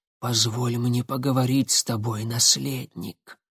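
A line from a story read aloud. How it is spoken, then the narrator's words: Old man's sudden whisper. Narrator (Russian): Прозрачный старик вдруг прошептал Никите прямо в ухо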